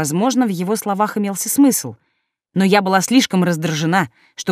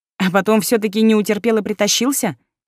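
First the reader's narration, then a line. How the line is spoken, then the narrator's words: Wry snort. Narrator (Russian): хмыкнула я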